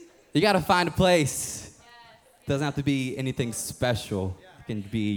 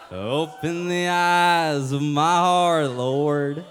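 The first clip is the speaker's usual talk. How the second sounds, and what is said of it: Singing in southern worship accent. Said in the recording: “I like to sing in a worship accent, southern voice.”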